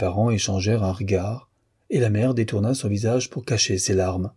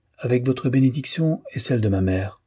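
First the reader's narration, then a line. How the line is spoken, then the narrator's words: Confident reply. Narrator (French): répondit-elle d'une voix assurée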